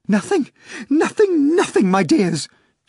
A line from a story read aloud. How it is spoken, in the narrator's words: she cried